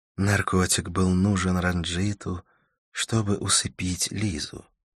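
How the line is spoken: Overly soft question. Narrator (Russian): спросила Карла слишком, на мой взгляд, мягким тоном

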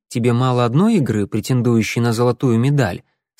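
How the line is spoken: Dispassionate question. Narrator (Russian): спросил тем же бесстрастным тоном

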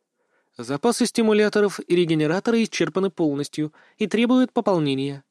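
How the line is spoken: Calm. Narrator (Russian): также спокойно добавила подруга

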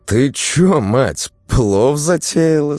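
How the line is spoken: Stunned question. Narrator (Russian): спросила она ошарашенно

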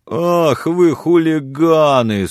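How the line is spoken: Whimpering, straining young man. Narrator (Russian): скулил парень, с трудом поднимаясь на ноги

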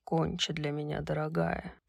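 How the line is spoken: Purring. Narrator (Russian): промурлыкал он

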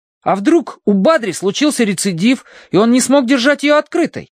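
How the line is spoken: Exclaiming. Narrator (Russian): воскликнул Колин

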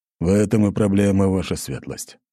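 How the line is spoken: Sighing. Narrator (Russian): вздохнул Ратай

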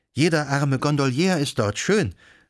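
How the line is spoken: Exclamation. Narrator (German): rief sie aus

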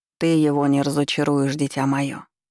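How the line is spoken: Archmage's gentle reply. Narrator (Russian): мягко отозвался Архимаг

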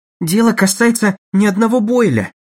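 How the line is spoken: Pleading tone. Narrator (Russian): умоляющим тоном произнес Холлоуэй

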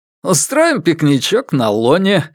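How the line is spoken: Chuckling. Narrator (Russian): хохотнул Фред

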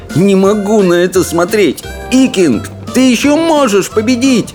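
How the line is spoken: Shouting. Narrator (Russian): закричал он

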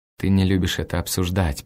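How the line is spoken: Undertone. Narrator (Russian): произносит она вполголоса

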